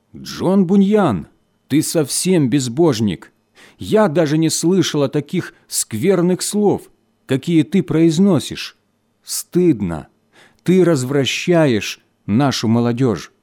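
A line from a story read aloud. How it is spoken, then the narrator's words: Indignant exclamation. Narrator (Russian): женщина, известная своим распутством, с негодованием воскликнула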